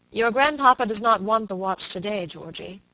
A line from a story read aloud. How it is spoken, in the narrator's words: he said gravely